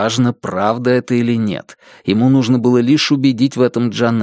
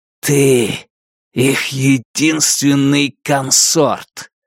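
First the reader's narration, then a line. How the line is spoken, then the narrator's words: Hissed in face. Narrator (Russian): Джанэй прошипел ему в лицо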